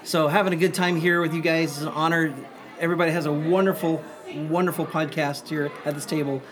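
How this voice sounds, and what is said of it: Strained, worn-out hoarse voice. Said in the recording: “I just got done performing an hour show for the kids, so I apologize. My voice is a little shot right now”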